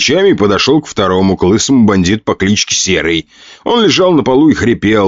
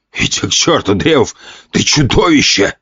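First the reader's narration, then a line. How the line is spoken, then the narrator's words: Rasped, spitting. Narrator (Russian): прохрипел и сплюнул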